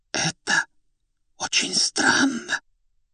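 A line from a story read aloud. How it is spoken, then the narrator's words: Whisper. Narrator (Russian): почему-то шепотом произнесла та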